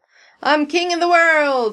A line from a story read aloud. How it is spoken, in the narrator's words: Steve shouts above the applause and catcalls